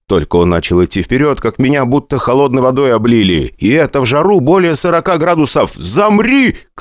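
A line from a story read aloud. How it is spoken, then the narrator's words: Shouted command. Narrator (Russian): крикнул я, чтобы Петруха остановился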